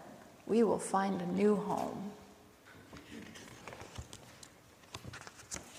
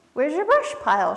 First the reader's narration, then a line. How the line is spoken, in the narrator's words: She squeaked